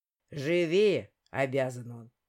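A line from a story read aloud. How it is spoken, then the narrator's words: Grumbled. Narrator (Russian): проворчал Арчи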